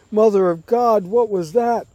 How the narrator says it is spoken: A crew member cries out

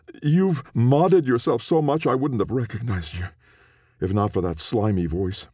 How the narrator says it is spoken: spat Calum

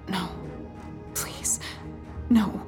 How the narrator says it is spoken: whispered

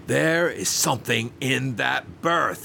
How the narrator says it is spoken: he cried in a strange voice, his eyes almost starting from his head

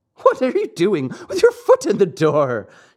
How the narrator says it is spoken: asked, laughing

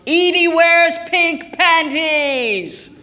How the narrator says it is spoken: to scream outside the candy store

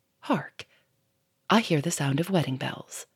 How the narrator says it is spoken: Lupin paused and said softly

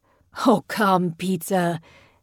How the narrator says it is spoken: Bjechen laughed

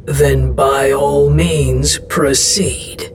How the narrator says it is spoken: Estros growled

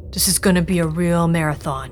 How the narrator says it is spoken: Ben grunted

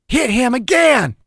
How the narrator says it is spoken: Dew screamed

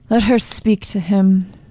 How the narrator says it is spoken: said Gabriel in a dull voice

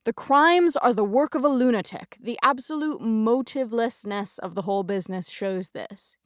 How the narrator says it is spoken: he boomed

